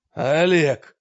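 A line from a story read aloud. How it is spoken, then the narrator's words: Growling darkness. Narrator (Russian): зарычал мрак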